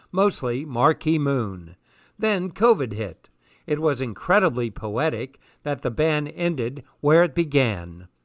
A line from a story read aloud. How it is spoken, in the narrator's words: he chuckles